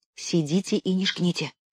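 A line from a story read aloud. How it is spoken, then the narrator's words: Whisper. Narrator (Russian): шепнула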